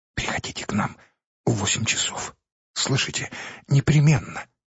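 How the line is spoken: Rapid affectionate whisper. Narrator (Russian): скороговоркой и с прежним ласковым выражением в глазах шепнула

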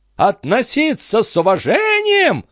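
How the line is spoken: Shriek. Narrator (Russian): взвизгнула она

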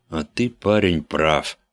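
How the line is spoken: Relieved sigh. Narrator (Russian): с облегчением вздохнет другой

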